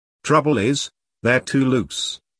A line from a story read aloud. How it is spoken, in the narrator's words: Glenn said sadly